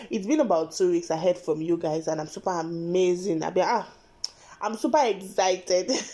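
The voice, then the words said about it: Cracky, slightly deep hoarse voice. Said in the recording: “my voice is a little bit cracky, a bit deep or something, but then I have cold”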